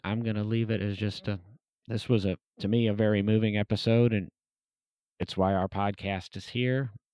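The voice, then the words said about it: Hoarse, congested sick-sounding voice. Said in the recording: “I'm going to go see if I can shake this cold. I apologize for my voice”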